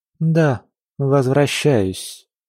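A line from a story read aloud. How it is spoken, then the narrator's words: Grim repetition. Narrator (Russian): мрачно повторила Сали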